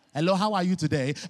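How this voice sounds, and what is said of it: Put-on African accent. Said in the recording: “I am black, I am African, I don't sound the part. It's okay. I can if you want me to, I promise.”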